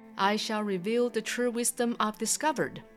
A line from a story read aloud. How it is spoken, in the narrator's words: exclaimed